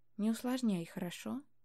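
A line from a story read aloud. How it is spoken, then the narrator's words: Quiet. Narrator (Russian): Добавил он так же тихо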